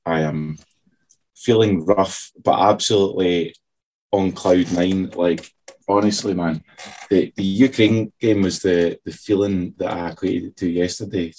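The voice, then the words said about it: Hoarse voice. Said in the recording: “you can still hear him hoarse.”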